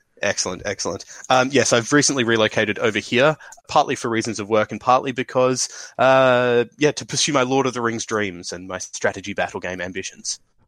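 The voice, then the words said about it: Australian accent with slight British tinge. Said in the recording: “I've been told when I'm in the UK that I sound Australian, and when I'm in Australia that I sound somewhat British”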